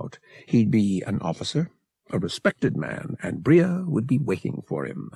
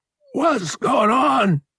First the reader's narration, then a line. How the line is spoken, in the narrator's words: Murg snarled into Han's face